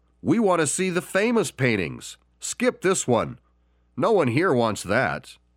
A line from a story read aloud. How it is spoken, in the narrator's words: a voice from the back of the room shouted